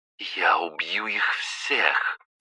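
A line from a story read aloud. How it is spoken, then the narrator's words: Through gritted teeth. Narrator (Russian): процедила Пожарская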